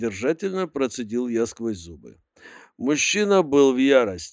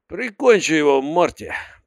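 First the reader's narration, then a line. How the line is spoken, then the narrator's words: Menacing command. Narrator (Russian): приказал грозно Залман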